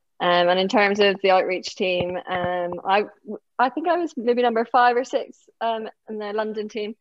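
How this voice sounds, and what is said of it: Northern Irish accent. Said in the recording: “from my accent, you can tell that I'm from Northern Ireland”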